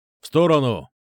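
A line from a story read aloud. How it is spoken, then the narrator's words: Barked shout. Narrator (Russian): гаркнул санитар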